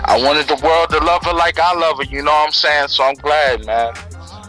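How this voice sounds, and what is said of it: English accent. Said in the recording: “I like your English accent.”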